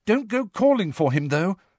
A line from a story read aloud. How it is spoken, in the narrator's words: Hermione said urgently